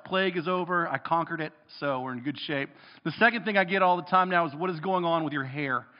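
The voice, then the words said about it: Rough, weird voice after illness. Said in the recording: “my voice is funky... my voice is kind of weird, I'm kind of coughy”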